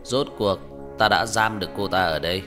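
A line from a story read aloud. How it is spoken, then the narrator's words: Old man laughing loudly. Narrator (Vietnamese): Ông cụ cười to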